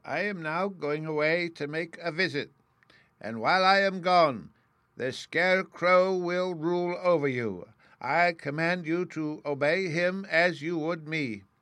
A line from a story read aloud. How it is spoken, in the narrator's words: Oz said to all the people in a loud voice